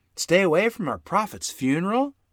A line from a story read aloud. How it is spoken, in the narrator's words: Mother exclaimed